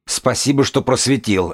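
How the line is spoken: Barking snap. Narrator (Russian): рявкнул бегун

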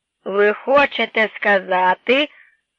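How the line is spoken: Stern. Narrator (Ukrainian): суворо промовив полковник Бентрі

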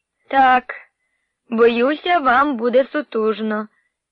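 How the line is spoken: Sigh. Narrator (Ukrainian): зітхнула

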